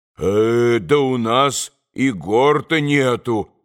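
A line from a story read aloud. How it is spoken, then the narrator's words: Priest's exclamation. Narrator (Russian): воскликнул отец Иосиф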